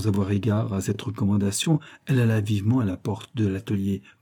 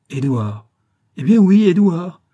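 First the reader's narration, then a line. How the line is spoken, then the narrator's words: Exclaimed. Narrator (French): s'écria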